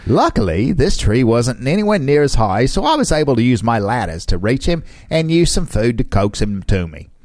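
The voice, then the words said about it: Put-on British accent. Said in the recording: “That's my British accent. ... I'm pretty sure she immigrated from Australia.”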